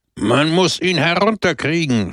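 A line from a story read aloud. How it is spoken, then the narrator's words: Indignant shout. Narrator (German): schrie der Redner empört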